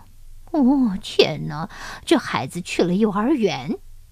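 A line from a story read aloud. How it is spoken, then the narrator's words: Sighing. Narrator (Chinese): 奶牛 叹息地说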